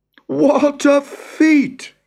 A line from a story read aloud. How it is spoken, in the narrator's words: He cried